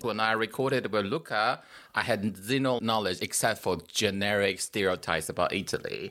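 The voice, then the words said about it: Chinese accent. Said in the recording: “You can hear my Chinese accent ... It's actually a Chinese accent.”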